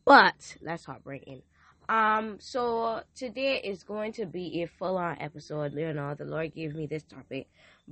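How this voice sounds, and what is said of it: Hoarse, weak voice. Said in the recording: “My voice is almost gone”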